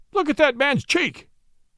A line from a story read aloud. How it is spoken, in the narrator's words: thundered